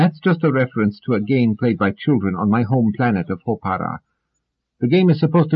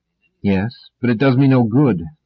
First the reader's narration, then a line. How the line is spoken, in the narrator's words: said Selden sadly